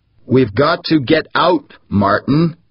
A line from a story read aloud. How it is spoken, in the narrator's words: insisted, almost shouting